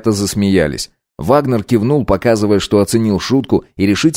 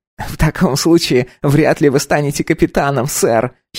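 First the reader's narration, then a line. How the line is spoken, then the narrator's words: Giggled. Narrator (Russian): хихикнул Саймон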